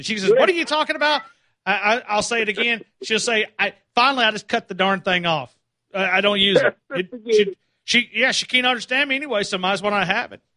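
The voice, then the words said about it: Southern country accent. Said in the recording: “She didn't understand my country accent.”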